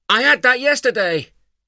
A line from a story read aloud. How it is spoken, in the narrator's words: Tyler shouted back